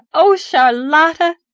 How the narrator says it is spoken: she cried gaily

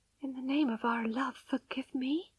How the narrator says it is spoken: she whispered with a dry mouth

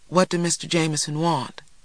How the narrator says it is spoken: she asked, her voice barely audible

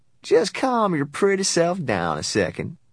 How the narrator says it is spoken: the sheriff said in a slow drawl

